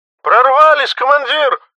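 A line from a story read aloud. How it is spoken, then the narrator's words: Sobbing. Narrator (Russian): всхлипнул Кипактли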